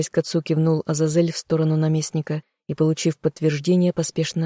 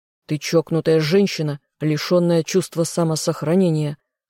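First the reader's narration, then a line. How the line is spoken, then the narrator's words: Reproachful growl. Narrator (Russian): рыкнул он, смотря на меня с укором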